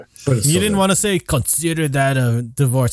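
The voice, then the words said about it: Bad imitation of another person's accent. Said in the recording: “I did that bad accent there”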